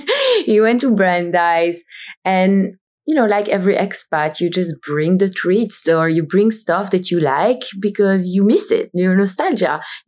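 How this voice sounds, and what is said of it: Belgian-accented English. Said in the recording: “He's also from Belgium. As you can hear from my accent, I'm not from the US”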